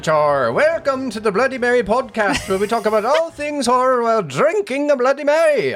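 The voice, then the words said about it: Leprechaun impression accent. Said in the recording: “Did you like my accent there? ... It was perfect. ... Spot on. That was my Leprechaun.”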